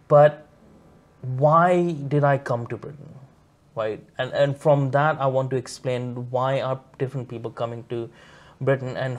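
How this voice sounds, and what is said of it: Non-British foreign accent. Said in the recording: “I have a weird funny accent as well, so people can understand that I'm not from here”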